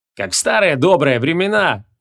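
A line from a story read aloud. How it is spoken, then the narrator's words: Cheerful shout. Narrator (Russian): весело крикнул Шамшуддин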